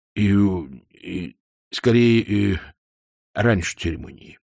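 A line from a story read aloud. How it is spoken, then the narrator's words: Glum. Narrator (Russian): уныло сказал Кувыркс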